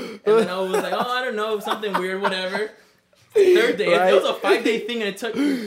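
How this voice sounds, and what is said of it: Usual voice. Nothing is said of it.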